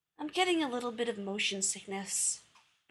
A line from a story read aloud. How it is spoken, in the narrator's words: Rodney sighed